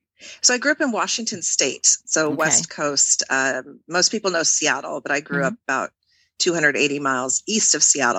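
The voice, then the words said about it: American accent. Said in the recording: “You've grown up American, which we can hear with your accent”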